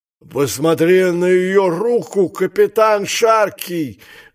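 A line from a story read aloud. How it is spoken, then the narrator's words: Shout. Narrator (Russian): закричал он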